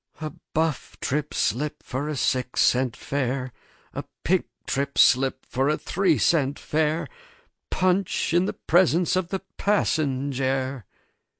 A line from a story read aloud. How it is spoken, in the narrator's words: I sighed wearily and murmured